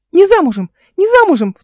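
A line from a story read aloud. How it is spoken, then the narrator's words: Shrill little echoing voice. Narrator (Russian): вторил визгливый голосок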